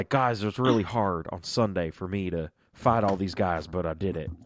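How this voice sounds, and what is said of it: Imitates another person's voice. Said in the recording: “You have such a good AJ Styles accent.”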